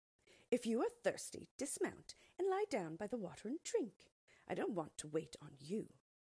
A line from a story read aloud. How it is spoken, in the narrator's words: the maid replied curtly